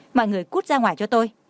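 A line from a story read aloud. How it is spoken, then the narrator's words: Angry command. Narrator (Vietnamese): tức giận nói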